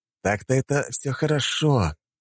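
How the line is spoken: Sad sigh. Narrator (Russian): грустно вздохнул я

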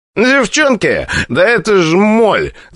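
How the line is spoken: Declaring, nasty laugh. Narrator (Russian): заявил Пушкарев и противно засмеялся

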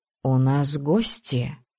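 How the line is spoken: Whisper. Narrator (Russian): шепнул он

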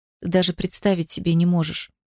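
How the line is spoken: Very quiet. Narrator (Russian): проговорила совсем тихо

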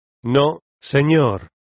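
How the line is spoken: Plain answer. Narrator (Spanish): me contestó María

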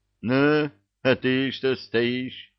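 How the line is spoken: Menacing. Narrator (Russian): грозно насупил брови

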